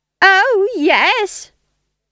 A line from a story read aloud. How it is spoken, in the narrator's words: shrieked Nanny